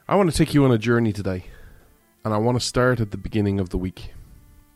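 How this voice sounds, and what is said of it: Irish accent. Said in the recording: “This Irishman stands with America ... you come for the accent”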